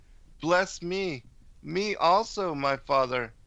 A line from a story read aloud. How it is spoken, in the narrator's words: Esau heard the words of his father, he cried with a cry exceeding great and bitter, and said to his father